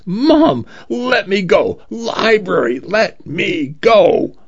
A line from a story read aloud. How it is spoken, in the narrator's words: he cried